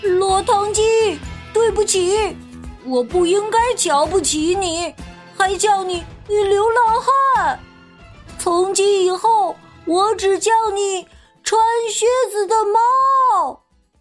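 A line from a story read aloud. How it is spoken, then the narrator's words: Remorseful shout from behind. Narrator (Chinese): 小胖墩儿后悔的在后面喊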